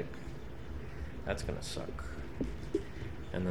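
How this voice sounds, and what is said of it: Usual voice. Nothing is said of it.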